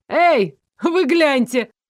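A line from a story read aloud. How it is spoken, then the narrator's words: Young demon shouting. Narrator (Russian): крикнул какой-то парень, похоже, демон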